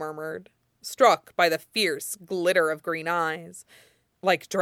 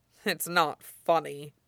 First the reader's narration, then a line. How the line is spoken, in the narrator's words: Zuko said grimly